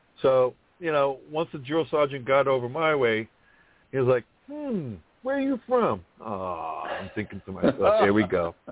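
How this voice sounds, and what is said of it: Thick New York accent. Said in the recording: “I have a thick accent.”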